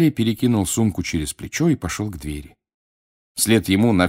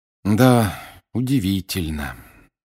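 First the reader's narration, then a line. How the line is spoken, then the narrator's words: Heavy sigh. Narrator (Russian): тяжело вздохнул Гарри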